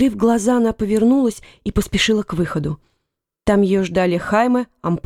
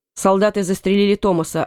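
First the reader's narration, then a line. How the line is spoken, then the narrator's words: Curt, clipped. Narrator (Russian): отрывисто сказал он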